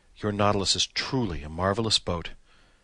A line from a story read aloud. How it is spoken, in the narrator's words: I exclaimed with conviction